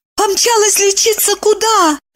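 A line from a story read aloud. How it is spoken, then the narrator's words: Frightened question. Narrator (Russian): испуганно взглянув на Кириллова, спросила она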